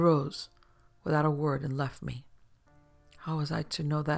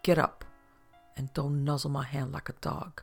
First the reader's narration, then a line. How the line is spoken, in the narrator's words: I said to her bitterly